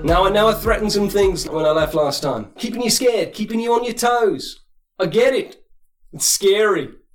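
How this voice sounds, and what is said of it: Put-on accent, slightly Australian. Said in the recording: “Your accent's gone a bit Aussie.”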